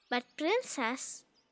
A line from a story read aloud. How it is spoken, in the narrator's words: said calmly